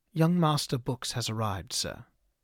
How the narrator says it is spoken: the servant spoke evenly

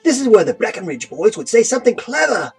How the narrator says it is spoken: Philo whined

